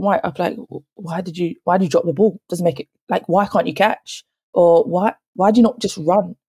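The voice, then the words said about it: South London accent. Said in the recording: “from my accent, I didn't realise that South London had an accent compared to Kent”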